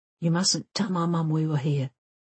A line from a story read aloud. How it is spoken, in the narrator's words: he whispers